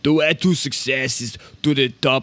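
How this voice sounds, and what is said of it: Imitates another person's voice. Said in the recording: “in a really weird accent ... Worst Arnold impression.”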